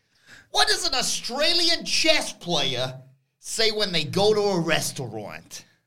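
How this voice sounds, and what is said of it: Put-on Australian accent. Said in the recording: “What happened to your voice and face? ... It's my Aussie impression.”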